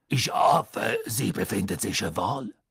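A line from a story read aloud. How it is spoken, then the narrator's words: Deep voice. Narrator (German): sagte Madame Maxime mit tiefer Stimme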